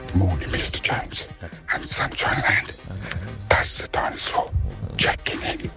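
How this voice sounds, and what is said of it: Quiet, hushed voice. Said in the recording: “It's not a weird voice. I'm trying to be quiet for Mr. Jones.”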